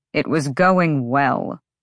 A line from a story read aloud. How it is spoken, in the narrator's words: Rune said tightly